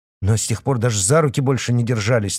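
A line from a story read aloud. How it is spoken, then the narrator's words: Hurried. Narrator (Russian): торопливо проговорил Артем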